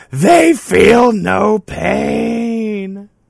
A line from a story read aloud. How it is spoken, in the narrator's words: Joey is yelling